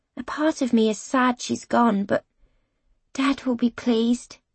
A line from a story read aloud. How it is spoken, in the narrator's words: I murmur